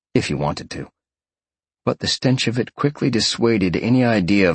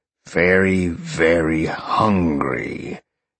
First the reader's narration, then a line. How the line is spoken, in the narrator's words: he growled